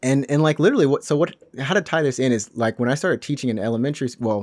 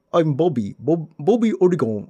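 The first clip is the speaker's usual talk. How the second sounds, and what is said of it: Heavy accented impression of Bobby Ologun. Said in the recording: “he puts a really heavy accent... He's from a part in Africa... he literally is like... kind of like that”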